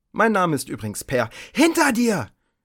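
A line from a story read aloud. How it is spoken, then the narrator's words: Young woman shrieking. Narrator (German): kreischte die junge Frau, deren Name Andromeda war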